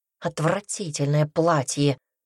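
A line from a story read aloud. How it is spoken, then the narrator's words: Muttered under breath. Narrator (Russian): пробормотала себе под нос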